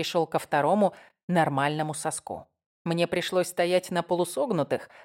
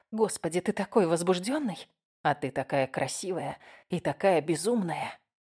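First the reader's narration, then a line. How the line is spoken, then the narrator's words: Muffled whisper. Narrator (Russian): прошептал, уткнувшись в ее плоть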